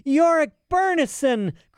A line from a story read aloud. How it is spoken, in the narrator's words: cried Lyra, her chest nearly bursting with joy